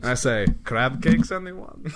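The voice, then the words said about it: Inconsistent put-on accent. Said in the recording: “I'm losing the accent. It's going all over the place.”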